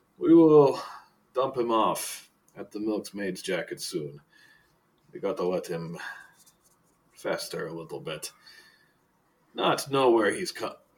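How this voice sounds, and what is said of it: Character voice with wandering accent. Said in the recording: “Where is my accent going? ... Where is your accent going? ... it's all over. It is all over the damn place.”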